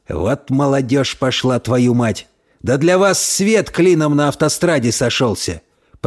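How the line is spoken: Muttering. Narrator (Russian): Пробормотал он

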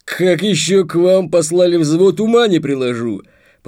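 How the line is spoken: Deep bass voice. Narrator (Russian): пробасил он

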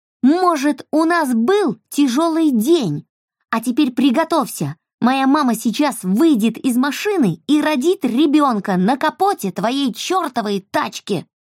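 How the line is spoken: Screamed at top of lungs. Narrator (Russian): завопила Эльса во все горло

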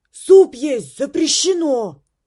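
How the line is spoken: Shouted reply. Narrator (Russian): крикнула Мик в ответ

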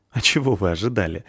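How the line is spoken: Laughing. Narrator (Russian): рассмеялся Бардрин

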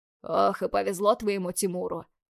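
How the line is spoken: Chuckling. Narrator (Russian): хохотнул Гаврилыч

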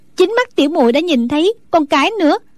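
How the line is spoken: Smiling. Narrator (Vietnamese): Đinh Đàn mỉm cười nói

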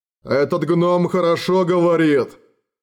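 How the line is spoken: Grumbling. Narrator (Russian): проворчал Гардсвог

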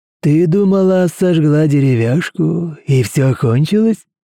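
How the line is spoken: Laughing. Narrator (Russian): Он рассмеялся

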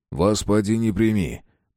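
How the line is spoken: Grumbling. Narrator (Russian): пробурчал Шестаков

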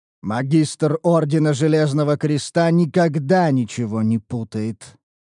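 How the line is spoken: Steely declaration. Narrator (Russian): заявил Грунхальд стальным голосом

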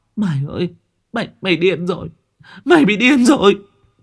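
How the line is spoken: Stammering. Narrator (Vietnamese): linh lắp bắp

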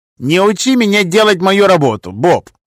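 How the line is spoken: Snapping retort. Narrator (Russian): огрызнулся он

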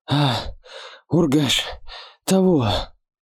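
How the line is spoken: Strained, breathless. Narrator (Russian): Выдавил из себя Ярга, переводя дыхание

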